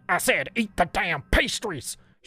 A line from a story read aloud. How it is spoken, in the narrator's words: She barked again, her greasy face quickly turning beetroot red as she spoke in anger